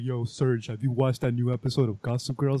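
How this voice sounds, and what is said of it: Imitates another person's voice, badly. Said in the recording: “that's the worst impression of me ever”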